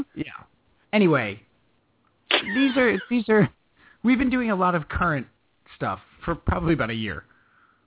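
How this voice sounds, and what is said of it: Speaks with a noticeable regional accent. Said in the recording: “With that accent? ... You're out of place, son.”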